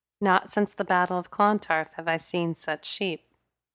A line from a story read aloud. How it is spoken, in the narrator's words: she said in a lilting accent